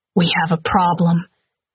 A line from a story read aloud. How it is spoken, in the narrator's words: he gasped